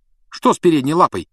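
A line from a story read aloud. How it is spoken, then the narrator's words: Sharp question. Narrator (Russian): резко спросил Рон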